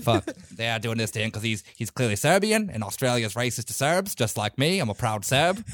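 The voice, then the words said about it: Attempted Australian accent. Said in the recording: “I can't do an Australian accent ... I had to get in my Serbian ultranationalist Australian character, which is just an Australian guy”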